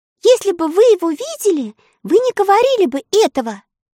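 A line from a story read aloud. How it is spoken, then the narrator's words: Indignant objection. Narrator (Russian): возмущенно возразила Элли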